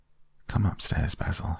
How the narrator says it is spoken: he said quietly

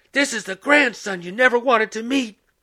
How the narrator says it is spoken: she screamed

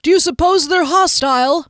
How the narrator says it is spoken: Duskellen hollered

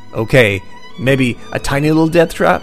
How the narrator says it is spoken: he says to himself quietly

